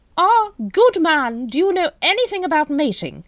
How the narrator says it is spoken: it boomed

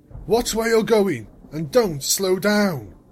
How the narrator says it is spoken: Hammer shouted

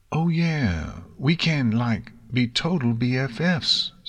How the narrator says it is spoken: Silver Spoon assured eagerly

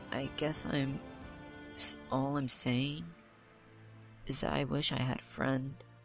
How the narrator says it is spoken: She looks to the mare with a pained look and quietly whispers

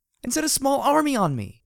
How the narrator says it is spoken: I shouted

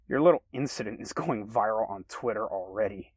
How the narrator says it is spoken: Kevin chuckled

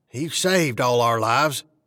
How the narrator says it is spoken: I said as gently as I could, but my voice sounded rougher than I meant it

